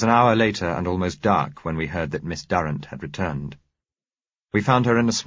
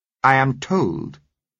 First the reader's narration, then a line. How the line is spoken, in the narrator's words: she said coldly